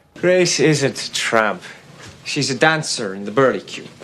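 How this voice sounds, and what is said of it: Inconsistent put-on Belfast accent. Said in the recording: “Belfast accent... I'm sure this could have been better... The vowel sounds in like... And hat... Keep going all over the place.”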